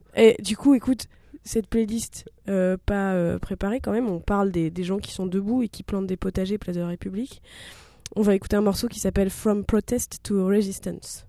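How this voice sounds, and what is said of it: Congested, blocked-nose voice. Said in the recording (French): “Mon accent est vraiment pourri... t'as le nez pris”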